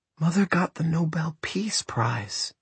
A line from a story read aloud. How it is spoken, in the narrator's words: she whispered at last